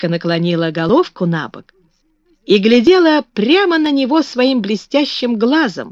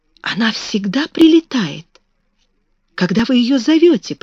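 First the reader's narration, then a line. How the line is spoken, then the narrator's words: Near-whispered question. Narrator (Russian): почти шепотом спросила Мэри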